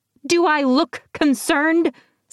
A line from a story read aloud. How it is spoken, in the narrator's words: Sybil snapped